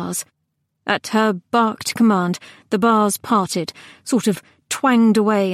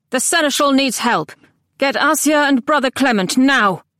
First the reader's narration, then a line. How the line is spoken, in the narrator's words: The woman barked